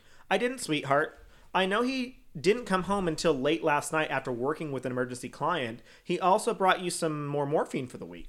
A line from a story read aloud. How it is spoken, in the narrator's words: she answered